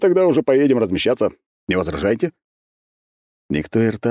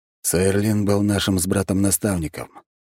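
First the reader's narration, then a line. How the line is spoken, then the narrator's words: Quiet explanation. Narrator (Russian): негромко пояснил Дерг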